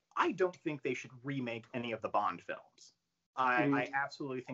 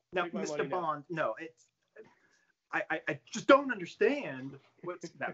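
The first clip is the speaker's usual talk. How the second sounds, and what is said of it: Imitates another person's voice. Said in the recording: “bad Nicolas Cage impression”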